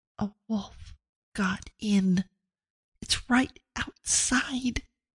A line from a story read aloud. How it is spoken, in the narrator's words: She leaned as close as she could to Abigail's ear and whispered